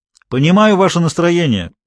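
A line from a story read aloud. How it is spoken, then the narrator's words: Shouting again. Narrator (Russian): опять крикнул Гуров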